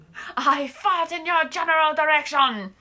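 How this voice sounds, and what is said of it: Exaggerated mock French accent. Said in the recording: “we get to meet the Frenchman ... I'm French. Why do you think I have this outrageous accent?”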